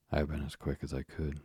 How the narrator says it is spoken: she panted

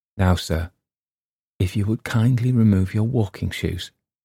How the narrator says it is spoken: he muttered close in my ear

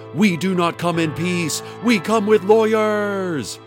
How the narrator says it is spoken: Hadassah screamed at Dana

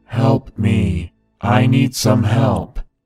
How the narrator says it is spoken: In a loud, monotone voice, he shouted

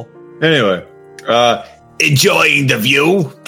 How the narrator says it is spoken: I snarled, not meaning to sound so aggressive, but coming out that way

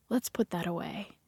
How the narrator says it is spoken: say gently

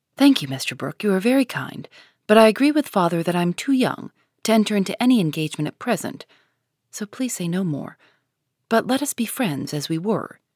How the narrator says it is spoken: say quite calmly and decidedly

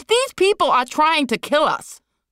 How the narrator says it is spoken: Liz screamed

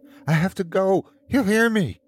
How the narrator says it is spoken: she cried out

